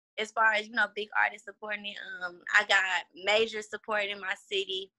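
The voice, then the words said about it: Slight Houston Southern accent. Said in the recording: “my talking wise, like when I rap, you can like hear it in my voice ... You got a certain little accent down here.”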